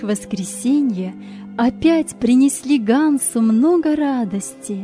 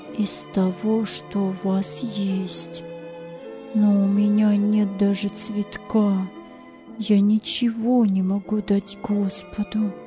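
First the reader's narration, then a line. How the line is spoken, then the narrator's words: Pensive whisper. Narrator (Russian): Ганс задумчиво шептал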